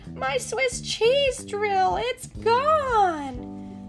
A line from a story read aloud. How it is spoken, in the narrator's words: Gadget screamed